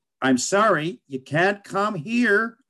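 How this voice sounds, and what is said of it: Put-on American accent, not very good. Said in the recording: “Thank you for the American accent. ... it wasn't very good, was it?”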